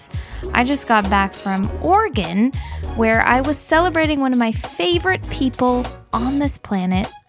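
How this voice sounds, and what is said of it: Tired-sounding voice. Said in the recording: “I am very tired today. I bet you can hear it in my voice.”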